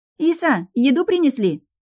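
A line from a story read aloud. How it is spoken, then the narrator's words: Loud. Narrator (Russian): громко произнесла Линара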